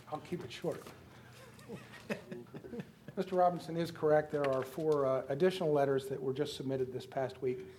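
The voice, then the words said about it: Hoarse, froggy voice. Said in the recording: “Excuse my voice. I have had trying to get those frogs out for the past couple of weeks. ... That's quite an affliction”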